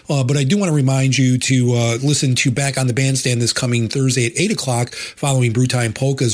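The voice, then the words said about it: Raspy, hoarse voice. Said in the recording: “My voice is very raspy today. I'm just getting over a bad cold.”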